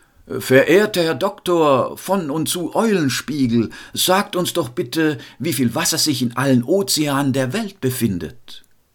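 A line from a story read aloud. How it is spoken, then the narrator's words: Calling up loudly. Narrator (German): rief der Rektor zur Kanzel hinauf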